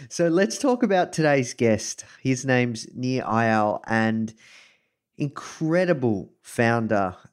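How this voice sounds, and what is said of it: Australian accent. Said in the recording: “coming to you live from Melbourne, Australia. You can probably tell this from my accent.”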